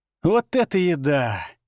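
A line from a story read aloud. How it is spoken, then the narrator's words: Moaning with mouth full. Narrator (Russian): простонал, отправляя в рот очередной кусок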